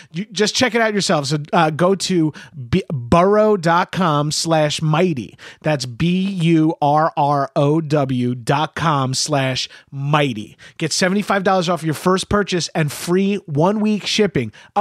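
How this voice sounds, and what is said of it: New York accent. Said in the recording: “I know I have a New York accent”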